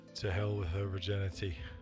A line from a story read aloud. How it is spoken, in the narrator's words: muttered Geralt